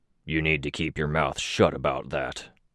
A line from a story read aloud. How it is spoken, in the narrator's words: Snag growled